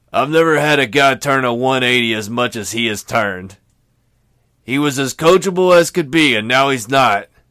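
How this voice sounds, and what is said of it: Poor Bob Huggins impression. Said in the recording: “in my Huggins voice ... that sounds nothing like Huggins. It's a terrible”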